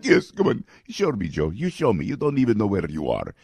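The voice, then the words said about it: Imitates another person's voice. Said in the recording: “my Vladimir Putin impression.”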